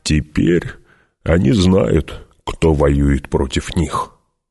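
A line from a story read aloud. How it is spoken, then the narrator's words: Plain. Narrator (Russian): сказал Гурни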